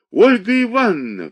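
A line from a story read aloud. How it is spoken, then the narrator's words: Shrieking, breathless with agitation. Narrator (Russian): взвизгнула она, тяжело дыша от волнения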